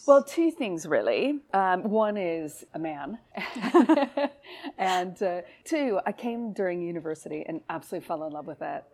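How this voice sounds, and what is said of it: American accent. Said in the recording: “From your accent, we can tell that... obviously you're not from the UK originally... growing up in the US”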